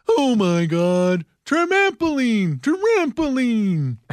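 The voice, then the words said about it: Impression of a famous TV dad. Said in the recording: “here's my impression of a famous TV dad”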